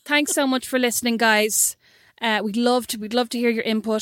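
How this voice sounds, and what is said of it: Awful put-on Irish accent. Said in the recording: “reclaim that Irish accent ... your Irish voice is so awful ... why does it have to sound so”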